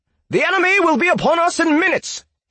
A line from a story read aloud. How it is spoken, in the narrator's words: he continued shouting